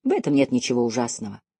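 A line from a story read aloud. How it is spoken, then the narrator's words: Gentle objection. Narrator (Russian): мягко возразил Деккер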